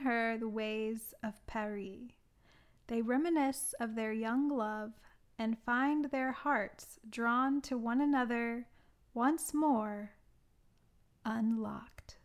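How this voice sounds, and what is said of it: Bad put-on French accent. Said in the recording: “Some pretty bad French accent... Pronunciations.”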